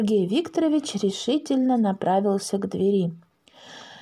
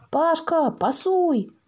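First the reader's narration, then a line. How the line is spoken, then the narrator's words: Shout. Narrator (Russian): закричал Макс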